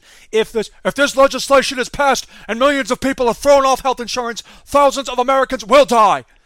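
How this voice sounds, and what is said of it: Bernie Sanders impression. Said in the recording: “pretty good Bernie Sanders impression”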